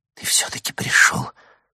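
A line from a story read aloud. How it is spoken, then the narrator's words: Whisper. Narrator (Russian): прошептала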